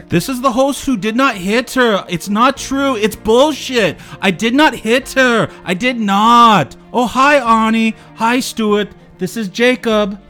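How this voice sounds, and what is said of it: Tommy Wiseau impression. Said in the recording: “you do the voice a lot better than I do”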